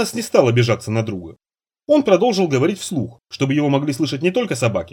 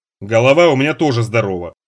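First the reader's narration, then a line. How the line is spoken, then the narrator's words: Grumpy old man's grumble. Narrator (Russian): сварливо пробурчал старик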